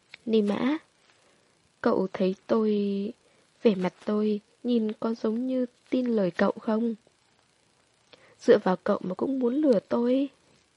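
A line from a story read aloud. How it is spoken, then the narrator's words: Cold mocking speech. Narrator (Vietnamese): ánh mắt cậu sợ hãi mới mở miệng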